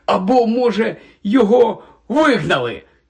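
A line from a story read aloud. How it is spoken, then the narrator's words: Excited exclamation. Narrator (Ukrainian): захоплено вигукнув Рон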